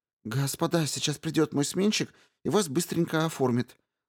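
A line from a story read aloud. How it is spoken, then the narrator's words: Trembling voice. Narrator (Russian): дрожащим голосом сказал он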